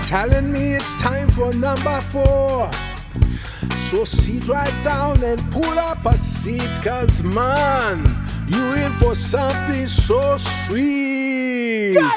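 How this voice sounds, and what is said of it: Sung rap in a Jamaican accent. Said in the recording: “Sounds a little Jamaican there. ... A little Jamaican.”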